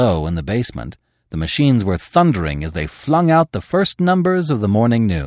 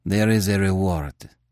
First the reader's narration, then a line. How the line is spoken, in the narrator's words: he said sullenly